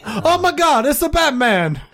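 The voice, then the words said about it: Poor put-on Cuban accent, sounds Italian. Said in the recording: “Why are you Italian? ... I'm not so good at the Cuban accent.”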